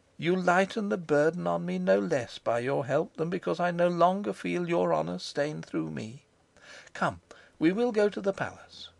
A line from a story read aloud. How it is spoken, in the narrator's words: said she most graciously and yet very sadly